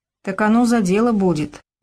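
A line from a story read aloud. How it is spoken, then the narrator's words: Sighing. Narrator (Russian): вздохнул Егор Петрович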